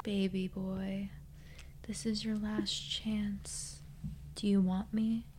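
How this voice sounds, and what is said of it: Sultry, seductive voice. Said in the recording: “You have a good sexy voice. Yes, you do. ... I sound like a Kardashian ate a squirrel.”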